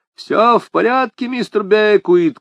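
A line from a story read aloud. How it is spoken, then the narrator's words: Shouting. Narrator (Russian): крикнул я в коридор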